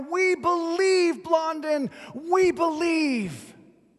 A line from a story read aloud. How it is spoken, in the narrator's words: the crowd was practically roaring now